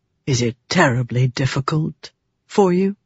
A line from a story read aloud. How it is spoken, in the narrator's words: He asked softly